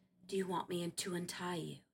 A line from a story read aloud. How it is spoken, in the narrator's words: She whispered